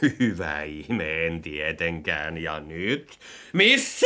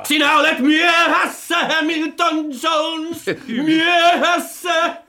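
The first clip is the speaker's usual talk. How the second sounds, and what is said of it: Roaring, shouted imitation of another person. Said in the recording (Finnish): “Hyvin matkittu, karjut ihan niin kuin Sir Henry. ... Älä huuda”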